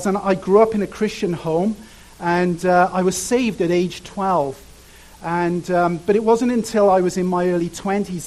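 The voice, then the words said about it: Cardiff South Wales accent. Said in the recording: “I grew up in a place called Cardiff. If you're from Cardiff, you say Cardiff. It's horrible. It's got a terrible accent.”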